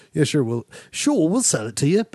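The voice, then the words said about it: Put-on British accent. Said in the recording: “Better than Kevin Costner, by the way, doing a way better job than Prince of Thieves ... a British accent”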